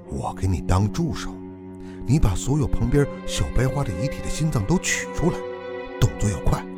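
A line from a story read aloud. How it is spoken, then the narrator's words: Low voice. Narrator (Chinese): 孙导低声说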